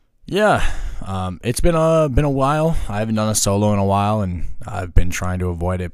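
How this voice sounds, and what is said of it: Hoarse, worn-out voice. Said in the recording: “My voice might sound weird ... So my voice is shot, hanging out, drinking, hanging out in a dry environment.”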